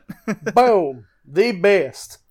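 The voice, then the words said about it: Southern Georgia accent impression. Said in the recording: “saying, "Boom! Virtual Pro Wrestling 2, the best," in his Southern Georgia accent”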